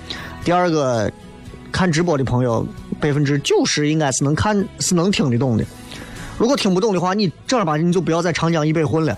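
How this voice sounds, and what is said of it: Mandarin with slight regional dialect accent. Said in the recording (Chinese): “我说的这个这个话听起来虽然是有一点方言口音，但是实际上。基本上都是普通话的吐字发音”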